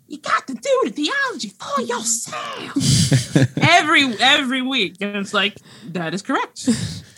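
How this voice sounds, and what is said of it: Imitates another person's voice. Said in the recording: “a B plus James Cone impersonation. That was pretty good.”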